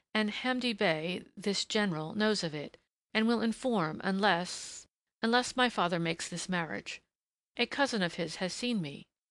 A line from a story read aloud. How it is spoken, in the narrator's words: she faltered